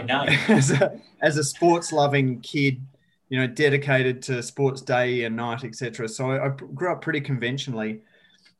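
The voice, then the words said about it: Rural South Australian accent. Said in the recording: “I grew up in rural south australia as you can maybe tell from my beautiful accent”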